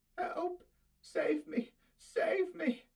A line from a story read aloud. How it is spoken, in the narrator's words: she moaned, her voice dying away